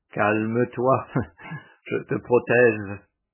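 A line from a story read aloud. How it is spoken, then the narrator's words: Laughing. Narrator (French): Aulus dit en riant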